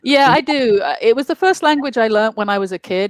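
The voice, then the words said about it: London English accent. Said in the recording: “I was obviously born in London, England, and that's why the accent is not Finnish.”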